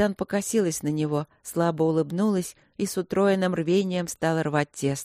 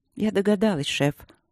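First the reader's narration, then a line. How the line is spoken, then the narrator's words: Calm reply. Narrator (Russian): отозвалась Дробжик спокойно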